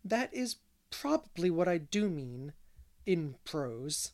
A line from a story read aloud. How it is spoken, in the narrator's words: answered Anne gravely